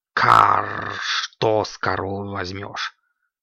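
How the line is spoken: Snorting. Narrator (Russian): фыркнул Кракс

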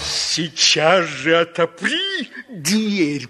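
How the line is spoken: Growled. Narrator (Russian): прорычал волк

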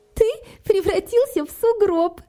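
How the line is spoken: Laughing. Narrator (Russian): засмеялась Кэти

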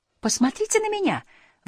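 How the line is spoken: Exclaiming. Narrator (Russian): воскликнула Фрекен Снорк

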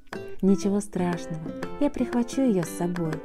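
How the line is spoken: Plain. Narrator (Russian): сказала мама Му

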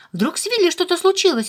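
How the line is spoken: Frightened. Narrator (Russian): испуганно сказал Харви

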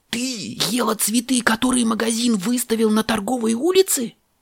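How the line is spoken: Shout. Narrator (Russian): кричал он

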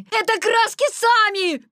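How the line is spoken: Desperate shout. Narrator (Russian): крикнул он в отчаянии

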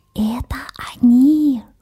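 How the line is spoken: Little mouse whispering. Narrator (Russian): шепотом сообщил мышонок

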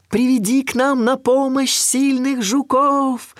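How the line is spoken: Shouting after someone. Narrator (Russian): крикнуть она ему вслед

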